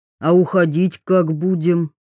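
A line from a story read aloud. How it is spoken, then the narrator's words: Plain. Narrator (Russian): спросил Белкин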